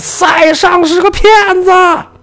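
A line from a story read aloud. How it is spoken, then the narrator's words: Shout. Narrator (Chinese): 梵高就大喊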